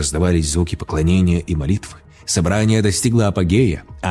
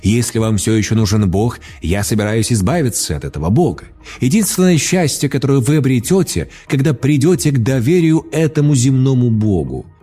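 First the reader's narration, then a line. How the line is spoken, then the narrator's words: Shouted. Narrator (Russian): Джонс кричал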